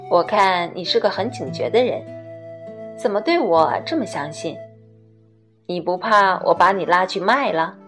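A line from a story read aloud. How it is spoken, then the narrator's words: Low laughing voice. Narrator (Chinese): 小霍低声笑道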